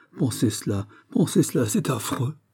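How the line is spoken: Exclamation. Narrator (French): s'écria la Vallière

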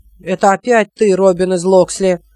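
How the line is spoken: Angry speech. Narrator (Russian): сказал он сердито

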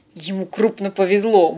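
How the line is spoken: Grumbling. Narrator (Russian): буркнул Станислав

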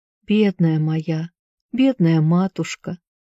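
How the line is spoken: Whispering. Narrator (Russian): шептал

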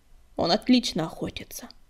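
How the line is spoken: Grumbling. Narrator (Russian): буркнула песчаная буря

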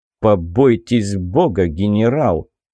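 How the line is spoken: Cold, through teeth. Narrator (Russian): холодно процедил

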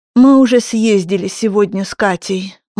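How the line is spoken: Heavy sigh. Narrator (Russian): мама тяжело вздохнула

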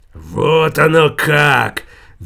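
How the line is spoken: Roaring. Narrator (Russian): взревел Иуда

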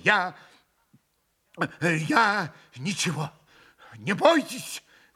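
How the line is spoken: Exclaimed. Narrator (Russian): воскликнул он

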